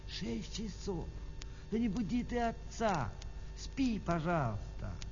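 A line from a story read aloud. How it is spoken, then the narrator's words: Mother whispering. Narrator (Russian): мама прошептала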